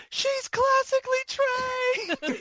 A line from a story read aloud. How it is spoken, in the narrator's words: all of them were screaming